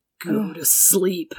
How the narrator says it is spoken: Danny whispered in their ears, trying to imitate his brother's voice

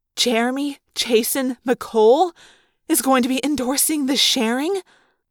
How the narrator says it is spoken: I asked in a wavering voice

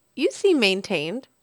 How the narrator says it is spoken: I said cheerfully

